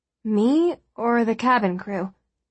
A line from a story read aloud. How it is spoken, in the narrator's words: asked